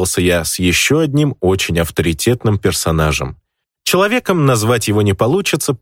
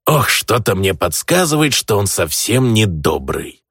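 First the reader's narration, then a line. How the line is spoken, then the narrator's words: Grumbling goblin. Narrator (Russian): проворчал в ответ гоблин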